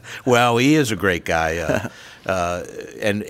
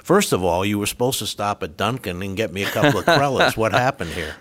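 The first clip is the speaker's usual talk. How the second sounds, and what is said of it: Put-on Rhode Island accent. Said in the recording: “if I go into my Rhode Island accent, which is where I'm from”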